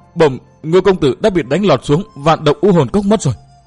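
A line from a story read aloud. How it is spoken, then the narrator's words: Trembling report. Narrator (Vietnamese): người này run rẩy thưa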